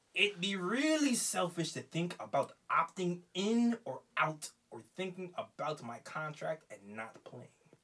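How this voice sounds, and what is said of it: Put-on Turkish accent. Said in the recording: “It's an interesting accent you got here. ... I don't know Turkish accents.”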